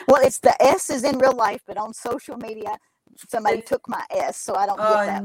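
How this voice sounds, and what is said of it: Kentucky accent with a twang. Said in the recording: “You can probably hear my dialect very clearly... Kentucky... my twang was not as bad in Alabama”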